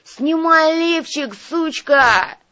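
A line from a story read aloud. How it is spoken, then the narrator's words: Yelled. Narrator (Russian): заорал Арнольд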